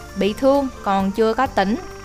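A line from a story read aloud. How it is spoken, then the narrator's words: Worried, quiet. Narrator (Vietnamese): Tiết Bạch Cầm lo lắng, nhỏ giọng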